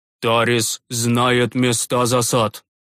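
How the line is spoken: Gloomy summary, priest. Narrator (Russian): мрачно подытожил священник

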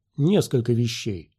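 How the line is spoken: Calm. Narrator (Russian): спокойно проговорил Оби-Ван

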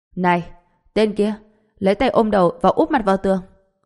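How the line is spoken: Resolute shout. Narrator (Vietnamese): vẻ mặt đầy cương quyết, hét lên

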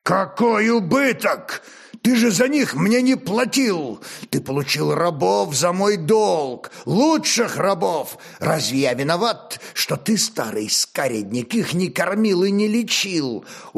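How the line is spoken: Commander's barely restrained growl. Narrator (Russian): Уже едва сдерживая себя, прорычал воевода

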